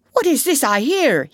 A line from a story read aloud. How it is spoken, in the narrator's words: he cried